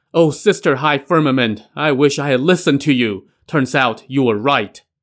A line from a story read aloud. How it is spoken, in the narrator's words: with tears rolling down his cheek, he suddenly shouted